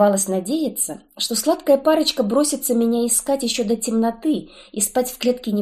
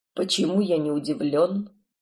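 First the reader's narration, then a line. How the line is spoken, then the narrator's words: Familiar husky voice. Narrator (Russian): прозвучал сквозь сон знакомый хрипловатый голос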